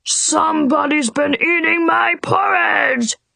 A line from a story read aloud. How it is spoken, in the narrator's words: roared Papa Bear